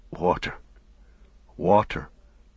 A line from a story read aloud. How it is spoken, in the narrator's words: muttered Sam